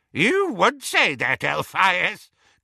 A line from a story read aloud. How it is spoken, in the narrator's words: cackled Auntie Muriel